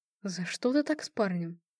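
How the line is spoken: Whisper. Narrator (Russian): шепнул мне Марат

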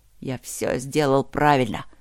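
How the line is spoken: Muttering to himself. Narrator (Russian): проворчал он себе

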